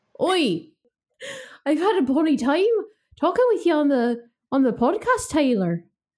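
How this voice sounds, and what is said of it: Put-on Irish accent. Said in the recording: “I'm going to get my Irish accent out ... in an Irish accent sounds like Tyler”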